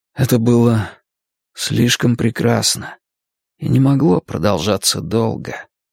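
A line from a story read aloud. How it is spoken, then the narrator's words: Quiet. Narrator (Russian): тихо сказал он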